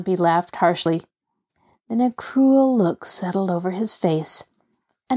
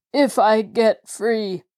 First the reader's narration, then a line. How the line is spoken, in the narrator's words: Jacob Aborn cried in a quavering voice